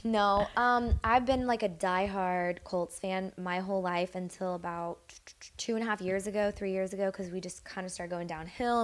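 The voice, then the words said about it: Hoarse, fading voice. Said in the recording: “I'm losing my voice also”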